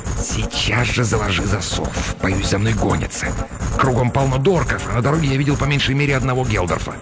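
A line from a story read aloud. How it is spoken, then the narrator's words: Hissing. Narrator (Russian): Неизвестный прошипел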